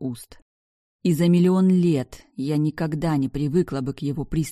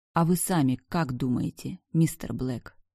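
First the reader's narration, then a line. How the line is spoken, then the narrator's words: Calm reply. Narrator (Russian): Так же спокойно ответила я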